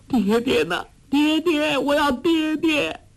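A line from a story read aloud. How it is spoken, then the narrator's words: Sobbing cry. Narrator (Chinese): 黄蓉悠悠醒来，大哭叫道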